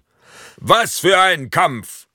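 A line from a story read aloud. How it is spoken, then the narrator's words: Stadium announcer calling out. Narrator (German): ruft der Stadionsprecher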